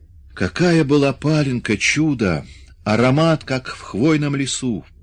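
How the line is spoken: Dreamy sigh, fat man. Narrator (Russian): Толстяк мечтательно вздохнул

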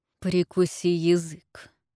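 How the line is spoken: Hissing. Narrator (Russian): прошипел

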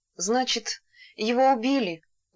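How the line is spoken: Breathed out. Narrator (Russian): выдохнула Елена и запричитала

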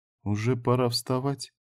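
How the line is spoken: Very quiet question. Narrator (Russian): очень тихо спросила

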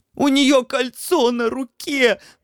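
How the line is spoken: Ecstatic wheezing. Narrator (Russian): восторженно засипел хозяин лабиринта

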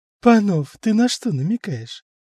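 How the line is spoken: Laughing. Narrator (Russian): Лиза засмеялась

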